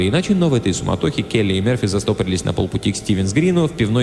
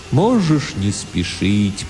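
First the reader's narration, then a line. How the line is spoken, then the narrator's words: Strange, sad, distant, philosophical voice. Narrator (Russian): произнес Тимулки очень странным, грустным, далеким, философическим голосом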